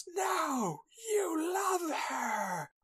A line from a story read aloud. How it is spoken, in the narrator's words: She screams